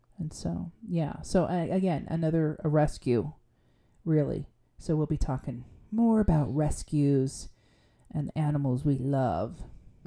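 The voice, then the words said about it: Calm public-radio announcer voice. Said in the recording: “I got down on my NPR voice again”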